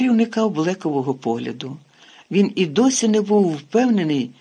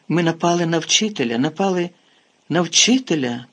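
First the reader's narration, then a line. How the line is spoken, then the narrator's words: Horrified moan. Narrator (Ukrainian): простогнала Герміона, нажахано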